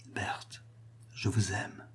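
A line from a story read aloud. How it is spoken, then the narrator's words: Very quiet. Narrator (French): fit-il tout bas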